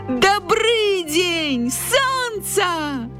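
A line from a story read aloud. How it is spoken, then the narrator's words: Shouting while hopping. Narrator (Belarusian): закрычаў падскокваючы заяц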